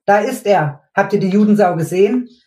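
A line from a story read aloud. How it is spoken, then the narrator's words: Excited young man shouting. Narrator (German): rief plötzlich ein junger Kerl aufgeregt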